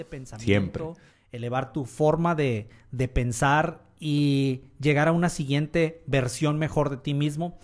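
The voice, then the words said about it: Announcer-style voice. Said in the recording (Spanish): “voz de locutor”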